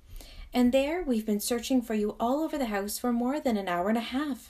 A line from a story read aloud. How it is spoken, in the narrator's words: exclaimed the nurse